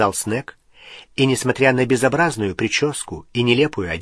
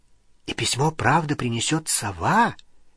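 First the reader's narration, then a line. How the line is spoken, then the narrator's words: Quiet question. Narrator (Russian): тихо спросила Лили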